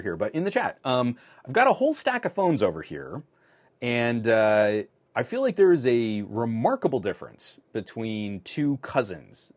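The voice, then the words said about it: Fuzzy, strained tired voice. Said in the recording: “My voice is starting to really fuzz out, so I'm going to take another drink of water”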